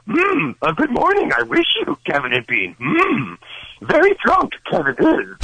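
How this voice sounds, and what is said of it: Fairly good Yoda impression. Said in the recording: “Master Yoda. ... That's pretty good. ... You do sound like a guy doing Yoda, though.”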